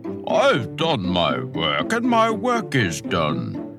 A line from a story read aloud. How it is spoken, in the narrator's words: the papa would bellow